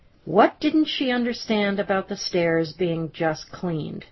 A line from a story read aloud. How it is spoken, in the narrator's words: Amy exclaimed to me